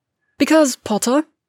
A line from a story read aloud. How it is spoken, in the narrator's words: Draco snaps